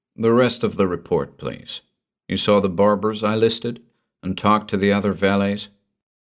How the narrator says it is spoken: his voice was even as he said

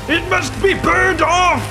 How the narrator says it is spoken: the younger dwarf barked

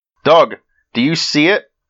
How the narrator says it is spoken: Betty asked

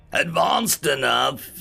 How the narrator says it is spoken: he roared with mirth

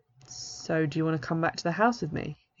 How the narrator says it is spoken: he asks

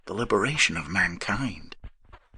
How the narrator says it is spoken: he added, and his voice was reverent

